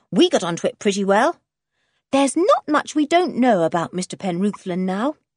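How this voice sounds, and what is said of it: Pleased tone. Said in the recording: “in a pleased voice”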